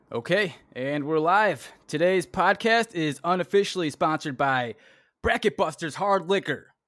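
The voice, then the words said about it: Southern American accent. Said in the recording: “Even though he has a southern accent”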